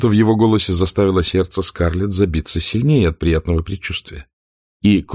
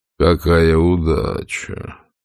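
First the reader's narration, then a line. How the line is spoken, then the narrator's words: Said quietly. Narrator (Russian): негромко произнес Ред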